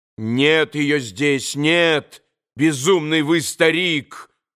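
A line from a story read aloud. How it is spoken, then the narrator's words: Angry shout. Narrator (Russian): злобно закричал на него Иван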